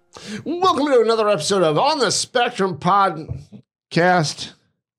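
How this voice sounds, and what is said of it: Radio announcer game show host voice. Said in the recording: “It's just your radio announcer voice, your game show host mode every time.”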